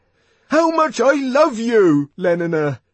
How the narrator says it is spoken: he brought out almost desperately

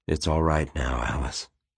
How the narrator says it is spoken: he said softly

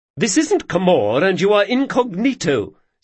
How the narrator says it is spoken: snapped the Baroness

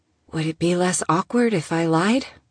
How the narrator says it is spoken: asked timidly

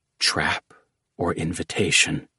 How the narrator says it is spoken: Jackal whispered

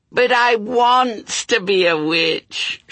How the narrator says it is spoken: she wailed

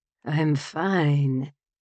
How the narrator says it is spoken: he mumbled

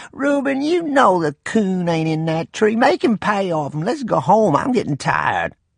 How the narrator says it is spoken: In a whining voice, Rainey said

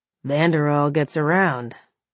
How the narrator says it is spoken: Cullen grunted

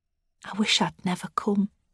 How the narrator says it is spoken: she says quietly

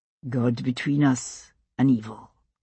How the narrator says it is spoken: Jamie said quietly

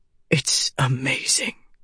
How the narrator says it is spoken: Dalinar said, his voice so soft she could barely hear it over the pattering rain

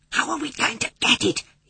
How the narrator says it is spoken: He whispered

